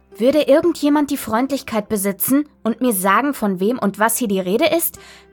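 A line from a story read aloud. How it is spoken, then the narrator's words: Angry shout. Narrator (German): schrie wütend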